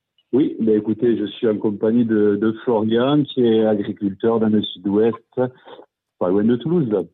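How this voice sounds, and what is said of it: Regional French accent. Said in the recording (French): “Oh là là, cet accent, qu'est-ce qu'il fait bien.”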